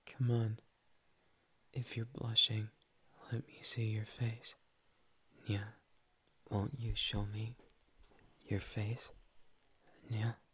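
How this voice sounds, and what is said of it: Cat-like voice with meows. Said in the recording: “talk like a cat”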